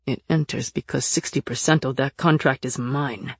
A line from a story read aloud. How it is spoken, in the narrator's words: Nick growled